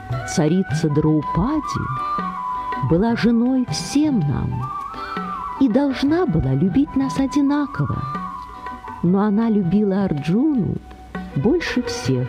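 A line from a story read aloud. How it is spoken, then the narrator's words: Plain. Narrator (Russian): ответил царь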